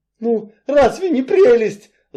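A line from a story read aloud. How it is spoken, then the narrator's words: Shrill squeal. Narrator (Russian): взвизгнул Энси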